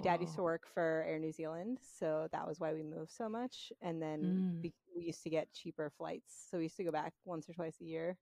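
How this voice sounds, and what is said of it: North American accent. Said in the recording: “I still sound I have like a North American accent.”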